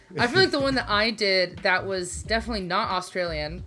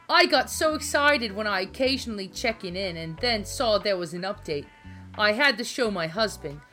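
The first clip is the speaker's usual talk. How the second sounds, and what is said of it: Put-on New Jersey accent. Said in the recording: “I'm going to read the rest of this email in a Jersey accent”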